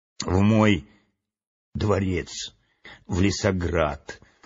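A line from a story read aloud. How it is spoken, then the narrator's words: Weak-voiced reply. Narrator (Russian): слабым голосом ответил царственный лис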